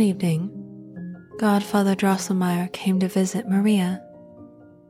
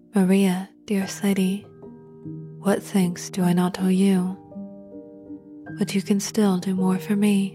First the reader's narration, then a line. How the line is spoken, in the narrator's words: She often thought she heard his voice sing